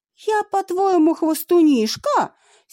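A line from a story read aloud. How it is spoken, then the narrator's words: Angry shout. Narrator (Russian): сердито крикнула Авва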